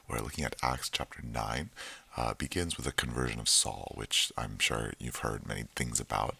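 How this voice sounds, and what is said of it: Soft, hushed voice after losing it. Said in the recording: “I lost my voice a little bit this weekend, so I'm doing this ASMR style.”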